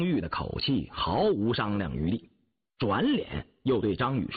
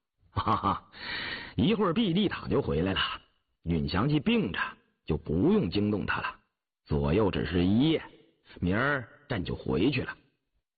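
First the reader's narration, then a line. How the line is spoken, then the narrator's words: Laughing. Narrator (Chinese): 雍正笑道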